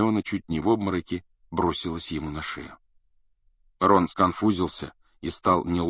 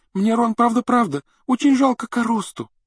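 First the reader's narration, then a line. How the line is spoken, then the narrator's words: Sobbing. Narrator (Russian): рыдала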